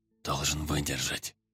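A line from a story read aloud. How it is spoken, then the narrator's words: Whispering. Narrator (Russian): шепотом проговорил капитан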